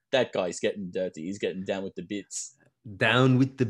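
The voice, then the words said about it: Weak put-on accent. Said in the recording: “this is not a real accent ... this is a different accent ... That was pathetic accent work by me”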